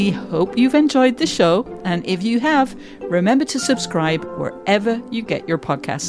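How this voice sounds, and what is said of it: Usual voice. Nothing is said of it.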